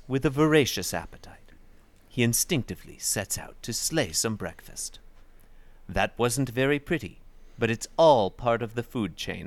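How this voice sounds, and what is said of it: Reads aloud in a put-on accent. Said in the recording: “It reads a little more entertaining than I thought it would be when you do the accent.”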